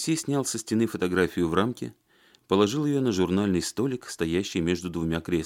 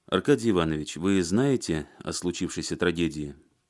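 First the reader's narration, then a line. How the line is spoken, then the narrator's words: Plain. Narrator (Russian): спросил он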